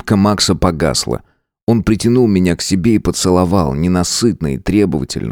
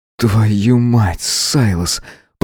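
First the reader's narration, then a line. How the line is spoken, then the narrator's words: Through gritted teeth. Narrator (Russian): процедил он сквозь зубы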